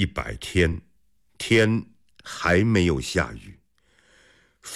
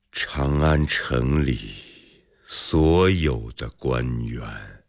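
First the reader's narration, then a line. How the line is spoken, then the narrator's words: Slow. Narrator (Chinese): 李克慢慢地说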